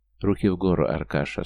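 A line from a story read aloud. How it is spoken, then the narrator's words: Calm command. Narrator (Russian): спокойно скомандовал Георгий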